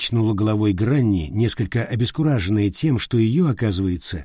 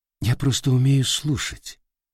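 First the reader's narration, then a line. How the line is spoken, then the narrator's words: Very soft male reply. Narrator (Russian): очень мягко ответил мужчина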